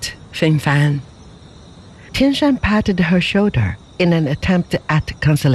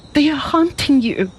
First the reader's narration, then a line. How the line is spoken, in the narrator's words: she cried